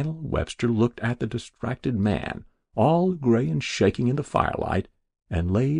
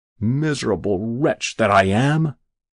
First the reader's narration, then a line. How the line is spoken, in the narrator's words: groaned Jabez Stone